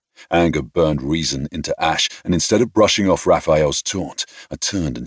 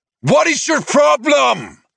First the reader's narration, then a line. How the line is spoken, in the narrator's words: Raphael shouted